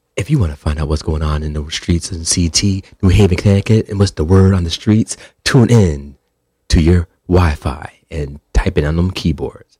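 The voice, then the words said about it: Radio announcer voice. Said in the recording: “Can I do my radio voice? ... that radio announcer voice”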